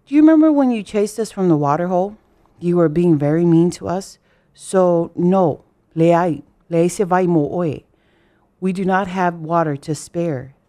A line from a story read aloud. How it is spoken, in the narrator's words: the zebra said